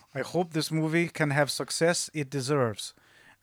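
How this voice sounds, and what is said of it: Put-on Russian accent. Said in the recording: “Should I read this in a Russian accent? ... I shouldn't do that.”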